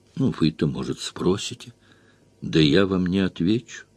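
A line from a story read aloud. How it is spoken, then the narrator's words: Quiet. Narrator (Russian): сказал я ему тихо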